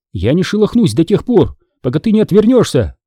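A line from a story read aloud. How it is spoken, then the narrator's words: Strangled embarrassed exclamation. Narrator (Russian): Сдавленным от смущения голосом молодая женщина воскликнула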